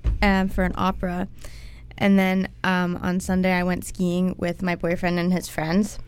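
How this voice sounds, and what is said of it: Slightly off, fading voice. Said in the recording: “my voice sounds a little bit off today, because I'm kind of losing it”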